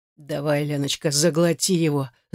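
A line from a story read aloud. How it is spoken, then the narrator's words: Growled. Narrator (Russian): зарычал он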